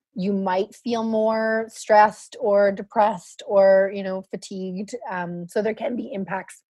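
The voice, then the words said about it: Hoarse, failing voice. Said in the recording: “Sorry, I'm losing my voice a bit.”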